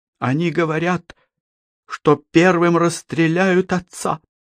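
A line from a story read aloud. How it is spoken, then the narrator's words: Trembling young woman's voice. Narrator (Russian): дрогнувшим голосом сказала девушка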